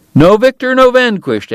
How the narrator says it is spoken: Eddie cried

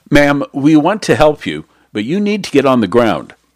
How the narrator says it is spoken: Fiorini yelled after her

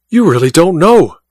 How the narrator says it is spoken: cried Godal, his eyes blazing

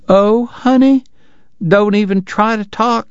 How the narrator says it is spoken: she cried

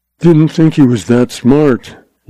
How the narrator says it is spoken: Lawson told himself gloomily

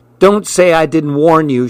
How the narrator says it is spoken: she shouted to Pete

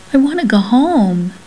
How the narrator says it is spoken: he begged

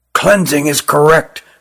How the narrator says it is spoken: whispered Rugum to Jilin

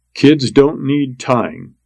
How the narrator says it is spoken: said

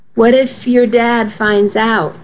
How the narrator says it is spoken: Missy asked

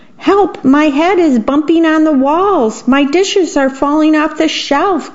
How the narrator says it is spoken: cried the worm

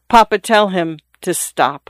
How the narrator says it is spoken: the young lady said in a low voice

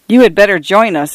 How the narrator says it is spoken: I agreed, quickly laughing

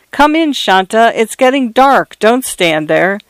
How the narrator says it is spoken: Her mother shouted from inside

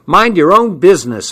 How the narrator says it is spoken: I yelled

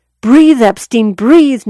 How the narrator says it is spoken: recalled him shouting

